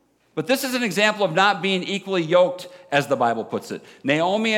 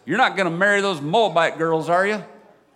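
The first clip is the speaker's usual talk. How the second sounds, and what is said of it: Put-on Southern accent. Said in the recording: “I started talking in a southern accent again.”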